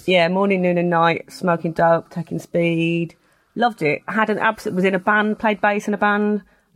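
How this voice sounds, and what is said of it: Black Country English accent. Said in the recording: “Sounds very Birmingham. ... It's the Black Country, which is a similar sounding accent”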